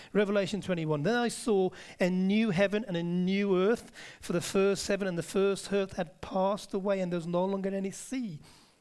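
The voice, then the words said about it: Put-on Brummie accent. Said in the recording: “here's what Revelation 21 says in a Brummy accent. ... Birmingham is a part of the UK”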